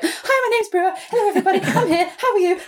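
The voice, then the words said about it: Playful imitated dog voice. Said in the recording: “I've worn myself out doing that impression.”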